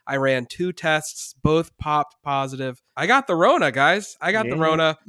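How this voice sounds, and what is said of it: Congested, stuffed-up sick voice. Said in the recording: “My throat hurts... Mostly, it's just been a really bad cough. You can probably hear it in my voice. I'm very stuffed up.”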